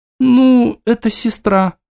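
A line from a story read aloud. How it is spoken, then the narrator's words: Sorrowful young girl sighing. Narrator (Russian): горестно вздохнула девочка с интонацией вечных младших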